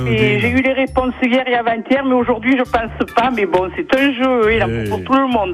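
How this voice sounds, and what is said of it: Sing-song regional French accent. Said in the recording (French): “cet accent qui chante et que j'aime tant”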